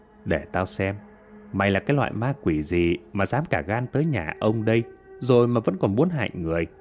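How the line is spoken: Smiling mutter. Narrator (Vietnamese): thầy Hà liền nở nụ cười mà lẩm bẩm

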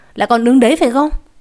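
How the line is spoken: Shouting old woman. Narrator (Vietnamese): bà quát

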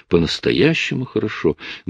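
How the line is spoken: Quiet, indistinct, satisfied, tired. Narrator (Russian): Голос ее звучал тихо и невнятно, в нем слышались удовлетворение и усталость

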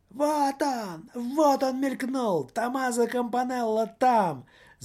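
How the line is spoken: Shouting at full strength. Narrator (Russian): закричал что было мочи

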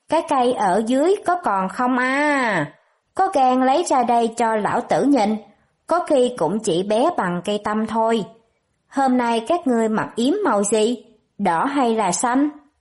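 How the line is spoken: Loud jeering laughter, group. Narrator (Vietnamese): Bọn họ cười lớn chửi rủa

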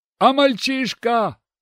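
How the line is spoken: Shout from crowd. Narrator (Russian): крикнули в толпе

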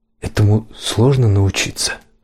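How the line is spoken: Plain. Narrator (Russian): спросил

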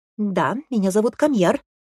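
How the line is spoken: Sharp declaration. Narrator (Russian): резко заявил брат

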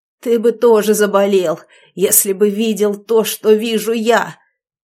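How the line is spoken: Barking voice. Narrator (Russian): Тем же лающим голосом ответил он

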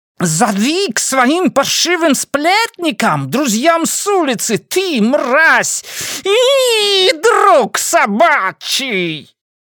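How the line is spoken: Crowd shrieking. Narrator (Russian): Теперь уже визжали другие люди, главным образом, я полагаю, при виде крови

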